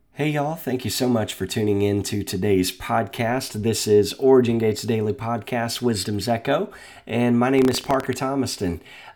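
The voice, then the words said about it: Congested, deep Batman-like voice. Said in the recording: “apologize for the voice today. I'm not using a voice changer. ... recovering from a little sinus congestion and uh, pretending like I'm Batman today”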